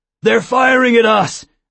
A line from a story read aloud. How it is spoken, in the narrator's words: Zeus shouted